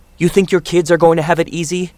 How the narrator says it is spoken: his mother cried

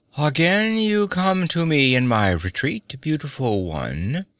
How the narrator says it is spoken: he purred with cynical hypocrisy

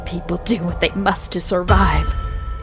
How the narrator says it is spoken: Mary growled

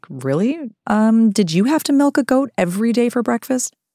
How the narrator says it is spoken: I'd laugh

